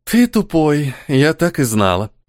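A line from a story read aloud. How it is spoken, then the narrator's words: Sighing. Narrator (Russian): вздохнула Света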